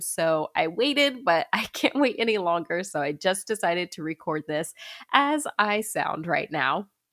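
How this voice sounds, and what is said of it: Stuffy, congested nasal voice. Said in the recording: “I sound a bit stuffy ... I am a little congested ... this lovely stuffiness”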